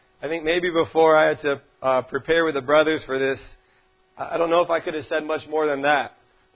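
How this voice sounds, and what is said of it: Slightly hoarse, strained voice. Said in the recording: “my voice is a little shot”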